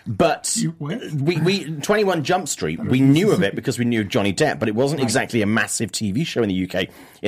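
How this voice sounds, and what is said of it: British accent. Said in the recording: “I grew up in the UK. Don't know if you can tell from my stupid voice.”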